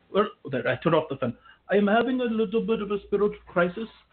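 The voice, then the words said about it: Noticeable accent. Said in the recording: “you have a good accent”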